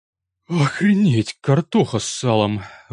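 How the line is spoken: Astonished exhale. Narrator (Russian): выдохнул я, пораженный

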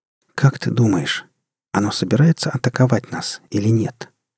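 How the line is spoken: Quiet question. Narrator (Russian): тихо спросила она капитана

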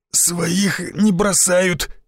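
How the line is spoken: Forced out with effort. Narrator (Russian): с трудом выдавил из себя Шишаков

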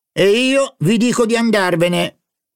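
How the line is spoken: Angry shout. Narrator (Italian): gridò il signor, eccitato dalla propria collera, gli occhi fiammeggianti

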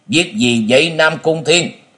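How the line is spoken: Harsh question. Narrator (Vietnamese): Từ Đạn nhướng cặp chân mày gai gắt hỏi

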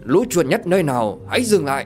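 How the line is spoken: Shout. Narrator (Vietnamese): Tiếng quát

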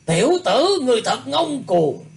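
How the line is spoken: Repeated shouting. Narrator (Vietnamese): Trong tiếng quát, gã ta hét liên tiếp

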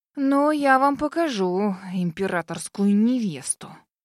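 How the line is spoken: Gloomy hiss. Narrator (Russian): Мрачно прошипела

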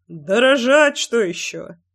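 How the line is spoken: Short laugh. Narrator (Russian): хохотнул кирпич

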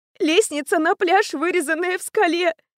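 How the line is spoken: Tearful speech. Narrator (Russian): говорила она сквозь слезы

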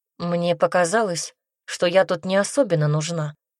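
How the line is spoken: Plain. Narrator (Russian): сказала она

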